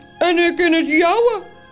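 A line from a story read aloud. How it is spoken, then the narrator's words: Called in another's voice. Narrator (Dutch): roept de andere Toos met de stem van Morrel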